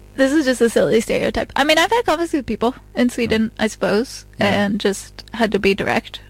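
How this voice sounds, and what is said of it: Usual voice. Nothing is said of it.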